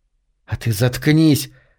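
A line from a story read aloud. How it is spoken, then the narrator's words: Hissed, spitting. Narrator (Russian): зашипела на него Берг, брызгая слюной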